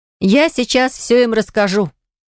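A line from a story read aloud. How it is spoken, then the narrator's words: Shouted. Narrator (Russian): крикнула Киренса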